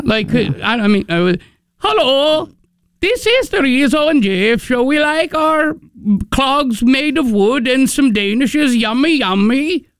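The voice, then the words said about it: Put-on foreign accent. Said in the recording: “I'll play that accent up all day”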